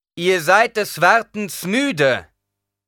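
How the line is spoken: Very loud, carrying voice. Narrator (German): sagte so laut, dass man es noch in der entferntesten Ecke hören konnte

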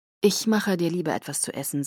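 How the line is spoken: Calm. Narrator (German): sagte er ruhig

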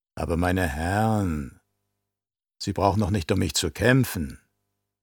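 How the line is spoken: Lewd, suggestive voice. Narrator (German): Mit geradezu obszöner Stimme sagte sie

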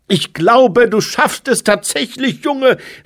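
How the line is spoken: Called out. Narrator (German): rief er der Gestalt auf dem Podium zu

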